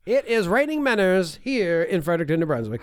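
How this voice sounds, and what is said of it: Funny put-on voice. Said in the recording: “doing my funny voice”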